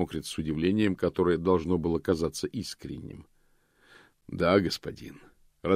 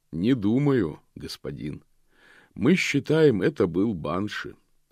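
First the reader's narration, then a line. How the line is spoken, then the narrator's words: Captain's calm reply. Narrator (Russian): спокойно отвечал капитан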